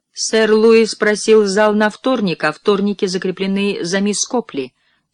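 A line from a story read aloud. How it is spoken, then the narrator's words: Plain. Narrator (Russian): сказала миссис Краттон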